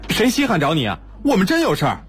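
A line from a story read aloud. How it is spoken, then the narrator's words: Shouting. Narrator (Chinese): 二头 嚷道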